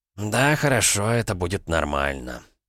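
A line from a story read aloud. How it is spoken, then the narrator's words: Exhaled. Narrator (Russian): Олег выдохнул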